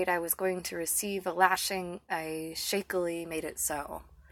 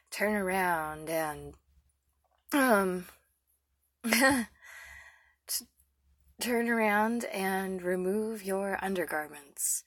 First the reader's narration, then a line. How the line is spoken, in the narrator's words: He said huskily